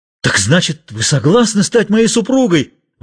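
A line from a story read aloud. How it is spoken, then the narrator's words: Exclamation. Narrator (Russian): воскликнул живодер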